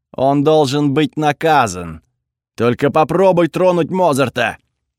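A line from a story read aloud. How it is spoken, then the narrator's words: Growled. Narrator (Russian): Прорычал я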